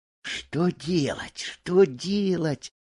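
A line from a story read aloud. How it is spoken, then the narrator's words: Whispered. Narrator (Russian): шептал Буртик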